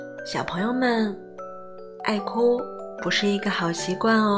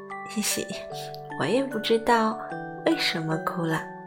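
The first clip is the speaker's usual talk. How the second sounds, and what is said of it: Quiet whimpering child-like voice. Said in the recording (Chinese): “小声哼唧道”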